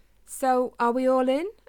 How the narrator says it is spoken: asked Spike

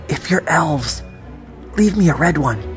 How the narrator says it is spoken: I whispered

